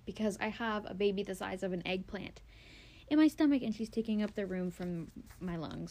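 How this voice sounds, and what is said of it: Sounds out of breath. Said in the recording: “I'm sorry if I sound out of breath. I am.”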